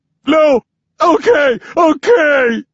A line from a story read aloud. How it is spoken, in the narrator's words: the man shouts